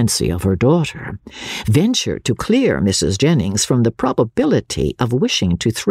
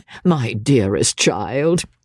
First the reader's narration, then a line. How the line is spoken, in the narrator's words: said her mother, laughing